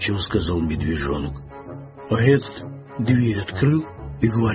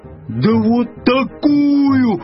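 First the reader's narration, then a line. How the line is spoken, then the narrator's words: Bear cub's yell. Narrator (Russian): завопил медвежонок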